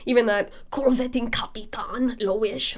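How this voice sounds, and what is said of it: Very bad put-on German accent. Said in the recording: “that's like my very terrible German accent there”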